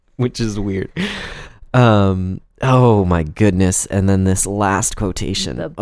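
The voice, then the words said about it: Laughing while speaking. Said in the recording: “my voice sounds very strange right now because I'm laughing”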